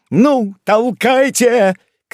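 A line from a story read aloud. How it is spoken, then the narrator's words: Shouting. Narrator (Russian): кричал великий канцлер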